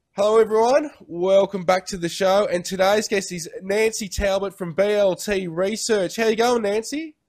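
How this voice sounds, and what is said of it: Strong Australian accent. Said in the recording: “it's so interesting to hear your accent. Hello, Australia. ... I've got the most full-on Australian accent ... it really is clearly Australian.”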